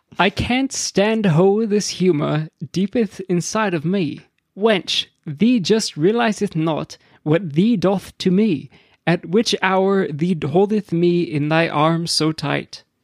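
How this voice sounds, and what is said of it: Mock English accent, archaic speech. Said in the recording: “I'm sorry if an English accent comes out.”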